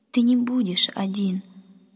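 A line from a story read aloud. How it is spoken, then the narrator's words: Mother consoling through tears. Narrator (Russian): сквозь слезы утешала мама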